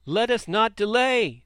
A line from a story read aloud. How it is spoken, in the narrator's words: they shouted